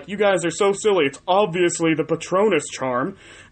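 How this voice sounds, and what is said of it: Imitates another person's voice. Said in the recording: “That's not a good impression of you”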